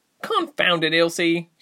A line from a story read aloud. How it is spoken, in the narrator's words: she barked